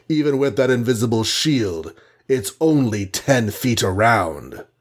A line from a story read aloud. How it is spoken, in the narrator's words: rumbled Goliath